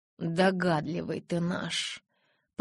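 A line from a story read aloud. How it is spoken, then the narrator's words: Said through gritted teeth. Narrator (Russian): процедила я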